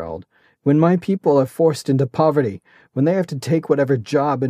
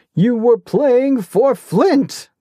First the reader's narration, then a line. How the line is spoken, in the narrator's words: the Duke bellowed